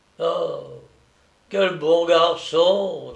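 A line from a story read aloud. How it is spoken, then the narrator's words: Sighed. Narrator (French): soupira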